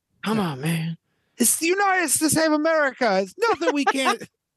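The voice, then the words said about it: Imitates another person's voice. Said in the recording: “My Biden impression is not very good ... Yeah, that Joe Biden sucked. Mine's not even good”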